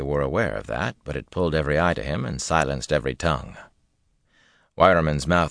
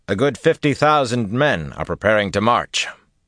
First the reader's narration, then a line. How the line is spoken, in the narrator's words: Rand said loudly